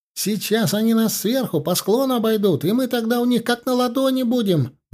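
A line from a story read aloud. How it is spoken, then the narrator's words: Shouted. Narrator (Russian): прокричал Ленька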